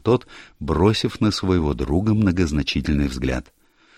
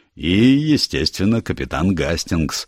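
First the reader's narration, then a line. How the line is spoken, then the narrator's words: Laughing. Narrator (Russian): Джеб рассмеялся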